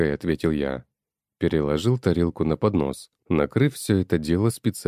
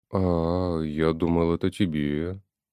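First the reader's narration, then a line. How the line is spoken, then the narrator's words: Annoyed sigh, old man. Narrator (Russian): с досадой вздохнул дедушка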